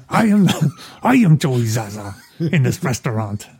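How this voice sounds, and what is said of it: Imitates a film character's voice. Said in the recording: “it's not a good Turk, but you are getting a good Joey Zaza”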